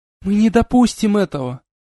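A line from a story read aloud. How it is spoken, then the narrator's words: Exclamation. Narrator (Russian): воскликнула белый маг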